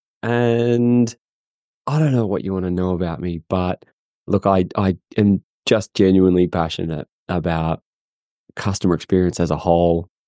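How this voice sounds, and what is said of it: Australian accent. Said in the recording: “I'm from Australia, if you can't tell from the accent.”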